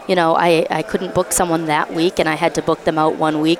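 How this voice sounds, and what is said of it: Massachusetts accent. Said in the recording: “Are you from Massachusetts originally? ... I can tell with the accent.”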